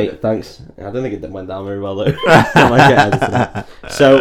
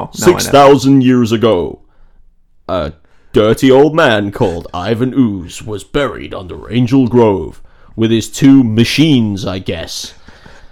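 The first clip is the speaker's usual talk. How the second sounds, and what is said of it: Zordon character voice impression. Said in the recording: “This is my Zordon impression.”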